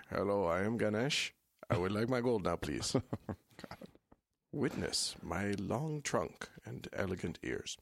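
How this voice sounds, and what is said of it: Impersonating Ganesh. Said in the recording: “I'm gonna impersonate Ganesh”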